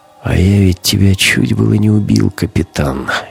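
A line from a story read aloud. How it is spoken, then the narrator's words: Quiet. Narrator (Russian): негромко сказал Гумилев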